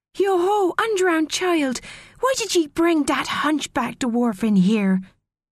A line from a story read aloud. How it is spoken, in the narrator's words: a very young mermaid shouted